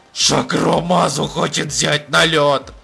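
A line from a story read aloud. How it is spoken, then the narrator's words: Growl. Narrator (Russian): прорычал апельсин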